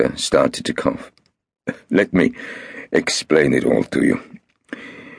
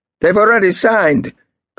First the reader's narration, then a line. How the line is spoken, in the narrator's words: cried Marcus